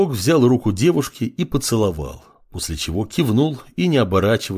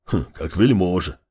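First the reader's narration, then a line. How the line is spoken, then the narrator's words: Older northerner scoffing. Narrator (Russian): хмыкнул старший северянин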